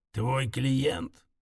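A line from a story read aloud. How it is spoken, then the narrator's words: Menacing creak. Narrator (Russian): Он угрожающе проскрипел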